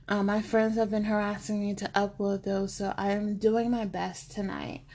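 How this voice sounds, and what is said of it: Rough, hoarse voice. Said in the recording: “I sound kind of rough. I have been fighting my bronchitis”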